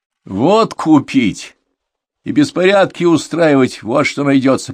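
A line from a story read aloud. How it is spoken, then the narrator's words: Deep bass voice. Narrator (Russian): пробасил Гиляров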